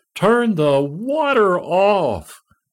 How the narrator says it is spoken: My wife … her suddenly start screaming

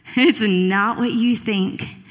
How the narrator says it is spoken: kind of laughed and he goes

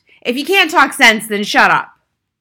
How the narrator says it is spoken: the father had snapped

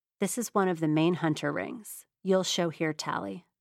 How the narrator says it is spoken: said Ryan

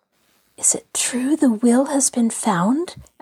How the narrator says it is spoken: Allie whispered

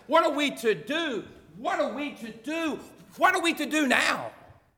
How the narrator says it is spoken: They started shouting

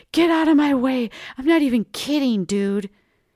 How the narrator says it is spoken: I shouted

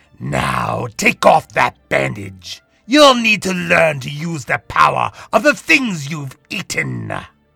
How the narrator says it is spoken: Alistair growled

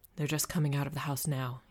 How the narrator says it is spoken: he murmured

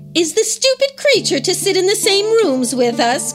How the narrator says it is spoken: cried the sisters

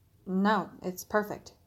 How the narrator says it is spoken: he responded softly, uncharacteristically

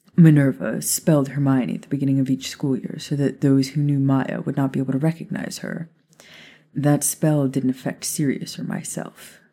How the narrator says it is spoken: Remus said

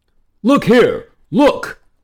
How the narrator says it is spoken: cried the king

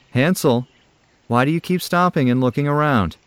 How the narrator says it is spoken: asked his father

